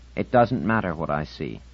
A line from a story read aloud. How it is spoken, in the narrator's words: said Insignia